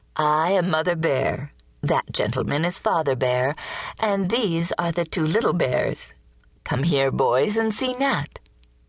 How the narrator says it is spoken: said, laughing

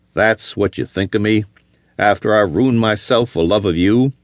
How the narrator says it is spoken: She laughed tauntingly

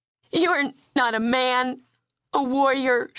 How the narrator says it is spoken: she sobbed

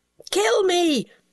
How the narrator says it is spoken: he shrieked, in supplication

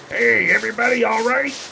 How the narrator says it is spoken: yelled

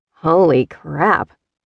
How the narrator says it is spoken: Ryan murmured

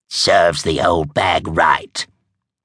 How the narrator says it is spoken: Truda snapped

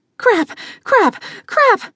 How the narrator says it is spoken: panted in rhythm with her running steps

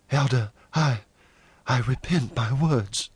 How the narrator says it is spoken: Jane faltered

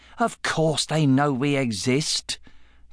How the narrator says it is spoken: Joe said scornfully

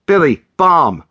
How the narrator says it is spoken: Miguel yelled

